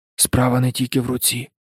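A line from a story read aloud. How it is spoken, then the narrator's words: Whispered. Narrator (Ukrainian): прошепотів він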